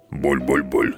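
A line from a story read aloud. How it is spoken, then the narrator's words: Grumbling. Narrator (Russian): заворчал Водокрут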